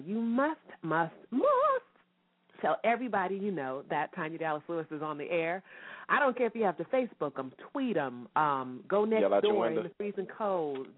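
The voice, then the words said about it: Sick, under-the-weather voice. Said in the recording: “You probably can hear it in my voice. I am a little bit under the weather”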